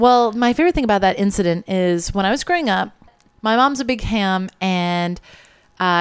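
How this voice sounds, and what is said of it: Usual voice. Nothing is said of it.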